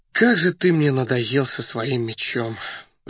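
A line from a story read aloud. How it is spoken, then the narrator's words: Sighing. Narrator (Russian): вздохнул Раст Петрович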